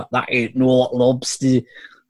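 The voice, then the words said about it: Mixed Irish and northern English accent. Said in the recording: “a horrible combination of the fucking jock Irish and northerner... Irish accents aren't my strong point”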